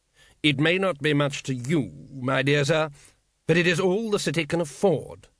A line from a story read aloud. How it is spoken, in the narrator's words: said the patrician firmly